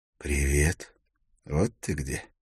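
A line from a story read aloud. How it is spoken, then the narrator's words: Soft voice. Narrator (Russian): Голос прозвучал мягко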